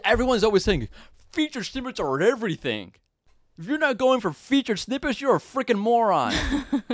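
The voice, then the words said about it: Put-on dim-witted character voice. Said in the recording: “What is the accent? Who are you trying to imitate? ... I'm trying to imitate a moron. ... That's what my moron sounds like.”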